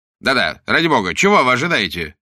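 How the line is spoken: Irritated repetition. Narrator (Russian): раздраженно повторил вслед за ним Уиллогби

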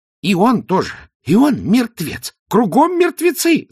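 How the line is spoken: Hysterical wail. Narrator (Russian): завопил казначей, слегка утративший связь с реальностью

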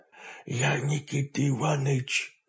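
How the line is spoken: Whispered reply. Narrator (Russian): шепотом откликнулся он

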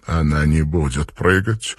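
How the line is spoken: Quiet objection. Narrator (Russian): тихо возразил Марлоу

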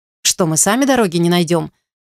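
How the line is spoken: Irritated, young woman. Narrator (Russian): раздраженно заметила девица

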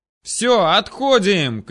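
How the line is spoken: Shouted. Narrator (Russian): крикнул один из колдунов

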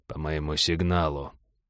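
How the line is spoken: Quiet command. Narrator (Russian): негромко скомандовал Череп

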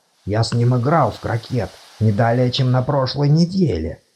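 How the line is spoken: Whisper in ear. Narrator (Russian): прошептал декан на ухо Чудакулли

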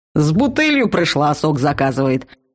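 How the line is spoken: Snorted. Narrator (Russian): хмыкнул Вал

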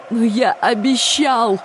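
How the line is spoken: Sobbing. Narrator (Russian): прорыдал Трев

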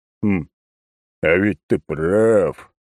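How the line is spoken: Deep bass, old man. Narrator (Russian): пробасил старик

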